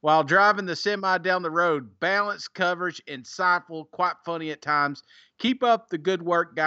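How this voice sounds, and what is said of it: Usual voice. Nothing is said of it.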